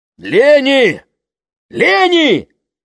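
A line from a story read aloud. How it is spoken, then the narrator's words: Father shouting. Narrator (Russian): Это кричал отец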